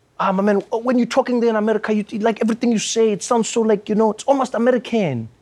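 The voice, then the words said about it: Exaggerated South African accent. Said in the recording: “he's just changed his accent while he's saying this to me”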